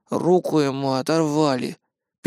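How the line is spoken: Sad statement. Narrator (Russian): печально заявляет Кирилл

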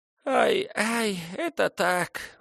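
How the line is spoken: Sobbing. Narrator (Russian): всхлипывая, подтвердила непоза

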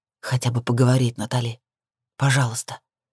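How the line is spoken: Soft whisper. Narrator (Russian): тихо зашептал он

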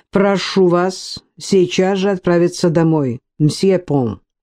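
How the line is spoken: Calm. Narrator (Russian): спокойно произнес Жоэль

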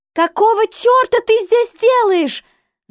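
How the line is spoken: Yelling. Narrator (Russian): заорала Эмили

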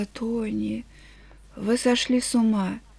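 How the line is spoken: Sigh then whisper. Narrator (Russian): вздохнула и прошептала

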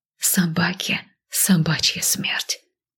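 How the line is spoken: Quiet whisper. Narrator (Russian): тихо шепнула я

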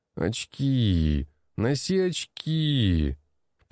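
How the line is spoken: Groaning. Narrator (Russian): Простонал

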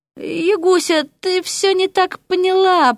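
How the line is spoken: Faint babbling from below. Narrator (Russian): пролепетал с нижнего пролета

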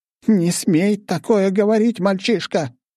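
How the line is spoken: Shouting. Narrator (Russian): закричала она

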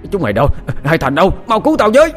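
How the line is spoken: Breathless shouting for help. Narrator (Vietnamese): Hội đồng quản vừa chạy vừa hét lớn kêu cứu

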